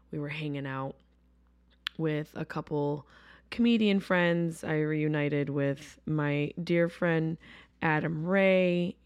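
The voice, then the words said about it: Worn, slightly hoarse voice. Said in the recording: “My voice is a little worn because I was screaming at the top of my lungs”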